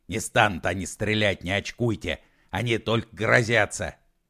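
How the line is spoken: Irritated reply. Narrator (Russian): раздраженно ответил Егор Алексеевич

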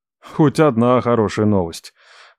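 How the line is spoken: Relieved exhale. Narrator (Russian): выдохнул

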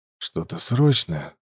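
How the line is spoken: Tired question. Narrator (Russian): устало поинтересовался

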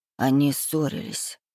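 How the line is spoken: Quiet, hesitant. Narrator (Russian): наконец говорит тихо

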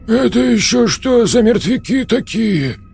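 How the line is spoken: Breathed out. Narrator (Russian): выдохнул Хрящ

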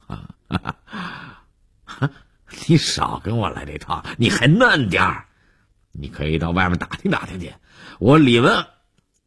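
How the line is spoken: Laughing. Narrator (Chinese): 李文海又笑着说

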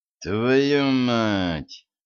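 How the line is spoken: Through gritted teeth. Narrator (Russian): процедил сквозь зубы Денис

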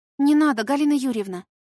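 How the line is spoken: Timid objection. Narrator (Russian): попробовала робко возразить

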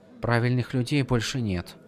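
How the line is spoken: Whispered. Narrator (Russian): прошептала Сил

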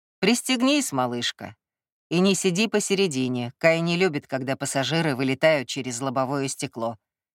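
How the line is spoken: Mocking advice. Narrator (Russian): насмешливо посоветовал Эль

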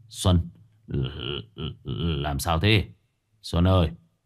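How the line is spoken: Stunned stammering. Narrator (Vietnamese): Gã cũng đơ ra mấy giây rồi ấp úng

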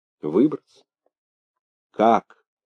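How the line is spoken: Sad question. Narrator (Russian): печально спросил Быков

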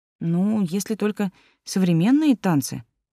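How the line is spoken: Uncertain. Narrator (Russian): неуверенно сказала Кристина

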